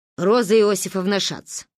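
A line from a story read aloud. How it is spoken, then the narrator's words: Gruff mutter. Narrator (Russian): буркнула Ба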